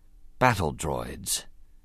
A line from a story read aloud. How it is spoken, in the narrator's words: Qui-Gon said softly